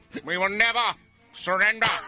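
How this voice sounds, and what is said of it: Imitates another person's voice. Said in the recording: “My Winston Churchill impression.”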